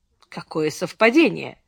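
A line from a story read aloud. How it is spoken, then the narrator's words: Muttered. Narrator (Russian): пробормотал Пико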